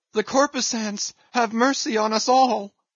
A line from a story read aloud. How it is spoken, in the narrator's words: immediately shifting his tone, he cried